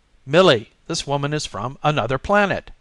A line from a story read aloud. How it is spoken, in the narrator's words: he exclaimed excitedly